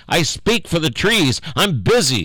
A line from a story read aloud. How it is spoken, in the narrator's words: cried the Lorax